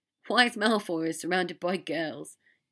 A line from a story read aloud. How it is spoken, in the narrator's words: Dean laughed